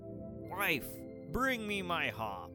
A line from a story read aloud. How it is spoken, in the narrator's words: He roared